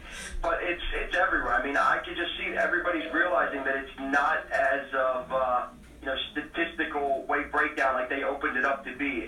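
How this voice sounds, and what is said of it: Baltimore accent. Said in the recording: “I'm ... I can tell by the accent”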